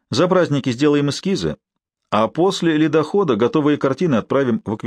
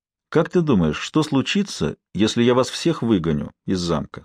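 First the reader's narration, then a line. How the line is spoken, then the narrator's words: Quiet, forced calm. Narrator (Russian): спросил тихим голосом, стараясь сохранить спокойствие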